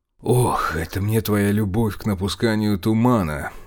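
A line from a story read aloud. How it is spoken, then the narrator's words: Irritated grumble. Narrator (Russian): Не скрывая раздражения, буркнул князь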